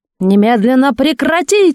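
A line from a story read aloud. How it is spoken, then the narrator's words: Full-force bark. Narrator (Russian): что было сил, гаркнул Матвей Бенционович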